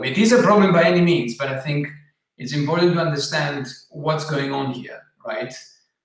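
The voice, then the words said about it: Greek accent. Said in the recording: “as many people can guess, perhaps from your accent or certainly from your name, you're Greek”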